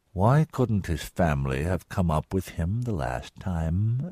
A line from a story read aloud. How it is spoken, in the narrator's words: asked quietly